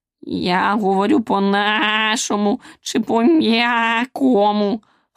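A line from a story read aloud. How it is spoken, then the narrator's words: Hoarse croak, toad. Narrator (Ukrainian): хрипнув жабун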